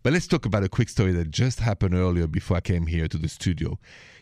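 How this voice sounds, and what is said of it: Thick French accent. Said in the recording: “that thick accent of mine, it's from France, Paris”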